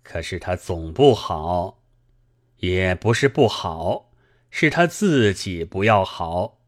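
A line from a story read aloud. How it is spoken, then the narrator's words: Slow, after a pause. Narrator (Chinese): 四爷在暂时静默之后，这才缓缓的说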